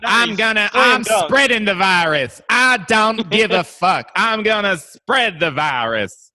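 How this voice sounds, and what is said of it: Imitates another person's voice. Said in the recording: “You guys want to do some Cat Williams impressions? ... How about Bat Williams?”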